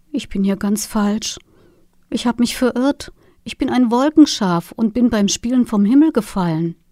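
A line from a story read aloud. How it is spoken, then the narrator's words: Little lamb, delicate voice. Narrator (German): sagte das Schäfchen mit feiner Stimme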